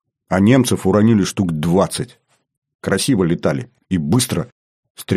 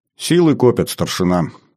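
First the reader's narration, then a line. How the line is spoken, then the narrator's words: Calm. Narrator (Russian): спокойно сказал комдив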